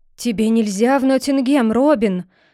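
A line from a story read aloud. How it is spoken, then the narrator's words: Exclamation. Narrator (Russian): воскликнул он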